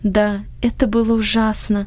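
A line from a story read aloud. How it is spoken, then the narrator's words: Sighing. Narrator (Russian): вздохнула Анни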